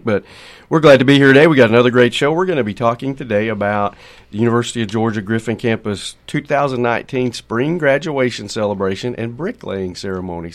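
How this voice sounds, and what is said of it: Nasal, congested voice. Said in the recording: “I apologize for the nasally twang, but that's just that time of year”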